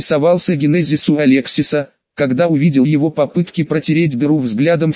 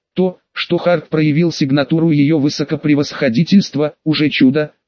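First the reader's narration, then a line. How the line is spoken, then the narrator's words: Plain. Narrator (Russian): сказали они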